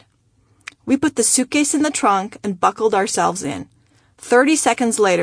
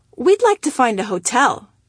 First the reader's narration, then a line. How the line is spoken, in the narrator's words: answered cheerfully